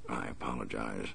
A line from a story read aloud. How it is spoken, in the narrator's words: the masked man said quietly